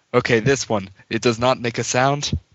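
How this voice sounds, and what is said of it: Vaguely Russian put-on accent. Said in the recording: “I wouldn't be speaking in a vaguely Russian accent”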